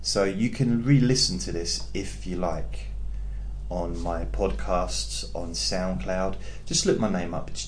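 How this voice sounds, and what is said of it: English accent. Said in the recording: “I'm from England, and I understand that the accent might be a bit weird for you”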